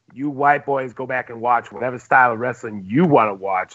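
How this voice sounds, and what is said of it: Impression of a fellow host. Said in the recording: “Was that your Platt impression?”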